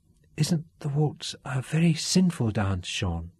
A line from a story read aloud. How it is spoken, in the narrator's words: Katrina asked softly